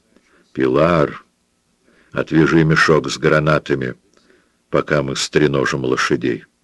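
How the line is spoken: Very quiet. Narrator (Russian): Пабло сказал совсем тихо

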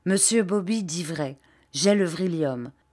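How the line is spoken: Resolute voice. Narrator (French): dit-il d'une voix résolue

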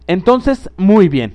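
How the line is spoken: Woman exclaiming. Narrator (Spanish): exclamó la mujer

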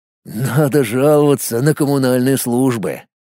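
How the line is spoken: Grim smirk. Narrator (Russian): мрачно усмехнулся Колян

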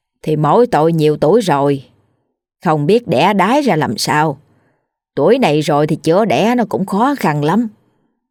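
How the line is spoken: Sighing. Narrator (Vietnamese): Bà Nhã thở dài rồi nói

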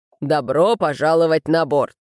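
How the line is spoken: Booming bass. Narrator (Russian): Приветствуя гостей, капитан громогласно пробасил

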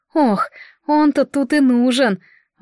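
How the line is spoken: Sighing. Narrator (Russian): Ванна вздохнула

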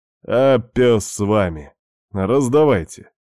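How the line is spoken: Loud announcement. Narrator (Russian): громко объявил Алекс

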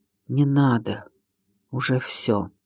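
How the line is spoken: Quiet reply from grass. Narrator (Russian): веранда тихо отозвалась из травы

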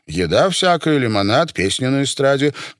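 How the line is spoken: Hurried explanation. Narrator (Russian): торопливо пояснил Фридман

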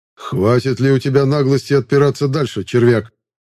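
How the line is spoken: Angry spat words. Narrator (Russian): Зло выплюнул магистр

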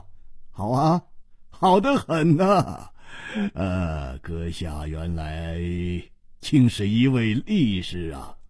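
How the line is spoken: Delighted laughing. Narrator (Chinese): 秋瓷王喜动颜色，拍掌笑道

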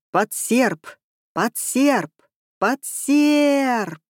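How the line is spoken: Screams fading into hissing. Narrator (Russian): Вопли переходили в шипение

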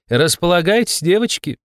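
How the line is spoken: Laughing. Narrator (Russian): хохотнула Таня

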